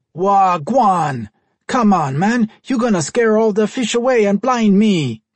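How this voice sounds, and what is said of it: Distinctive Jamaican accent. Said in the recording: “with a distinctive Jamaican accent”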